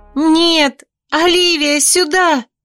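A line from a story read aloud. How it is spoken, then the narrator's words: Screaming extremely loudly. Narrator (Russian): Я никогда в жизни не кричала так громко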